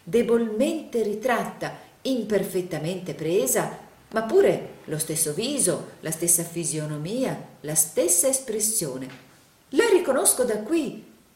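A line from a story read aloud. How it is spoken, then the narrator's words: Enthusiastic exclamation. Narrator (Italian): esclamò il signor Plug in un trasporto d'entusiasmo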